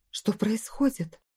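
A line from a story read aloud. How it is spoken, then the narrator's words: Frightened question. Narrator (Russian): испуганно спросила я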